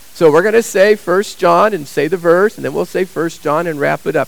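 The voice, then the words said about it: Cracking, strained voice. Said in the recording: “You can see my voice is cracking”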